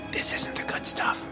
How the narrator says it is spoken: One kid whispered

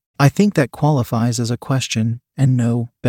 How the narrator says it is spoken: Ben replied

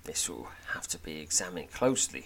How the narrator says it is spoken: he says, lowering his voice

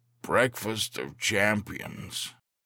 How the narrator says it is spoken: With his mouth full of squishy cake, he mumbled

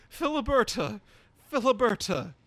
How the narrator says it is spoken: cried

